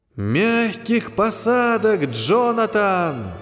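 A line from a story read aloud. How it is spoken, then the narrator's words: Shouted by several. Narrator (Russian): его спутники крикнули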